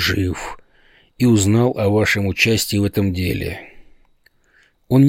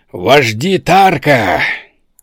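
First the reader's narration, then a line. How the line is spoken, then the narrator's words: Shouting. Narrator (Russian): закричал я, обращаясь ко всему совету и перебивая Талхаджуса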